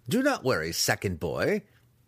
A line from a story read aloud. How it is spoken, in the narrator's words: he laughed